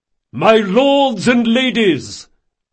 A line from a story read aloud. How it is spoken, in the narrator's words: Reynard bellowed at the top of his voice